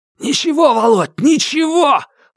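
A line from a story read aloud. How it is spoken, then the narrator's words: Hoarse shout. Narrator (Russian): успел хрипло выкрикнуть Дугин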